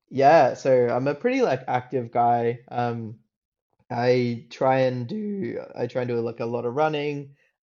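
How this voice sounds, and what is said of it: Australian accent. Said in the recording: “I grew up like in Australia. If you can if you can tell by the accent”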